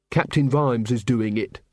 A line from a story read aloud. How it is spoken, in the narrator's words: said Carrot